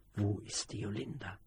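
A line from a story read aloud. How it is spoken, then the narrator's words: Man asking quietly. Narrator (German): fragte er mit leiser Stimme, um die anderen nicht zu wecken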